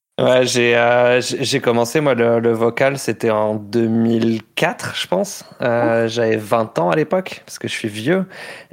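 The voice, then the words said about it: French-from-France accent. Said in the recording (French): “comme ça peut s'entendre à mon, à mon accent, je, je viens pas de Montréal ... je, viens de France”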